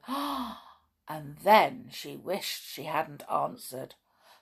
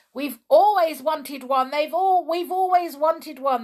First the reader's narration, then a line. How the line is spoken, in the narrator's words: shouted